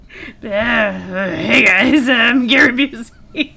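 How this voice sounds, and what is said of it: Imitates another person's voice. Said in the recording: “your Gary Busey impression”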